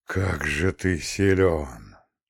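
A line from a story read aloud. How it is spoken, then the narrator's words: Drawn-out speech. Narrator (Russian): протянул вместо ответа Романовский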